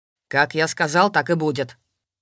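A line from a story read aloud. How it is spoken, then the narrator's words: Menacing. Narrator (Russian): грозно произнес Воронцов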